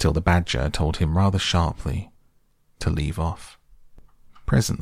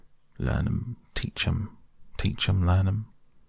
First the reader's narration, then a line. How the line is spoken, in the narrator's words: he could be heard muttering